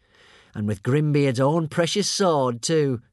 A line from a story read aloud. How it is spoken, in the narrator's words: chuckled Alvin